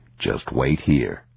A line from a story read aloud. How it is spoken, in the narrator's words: he said